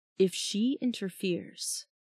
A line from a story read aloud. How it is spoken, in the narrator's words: murmured Ember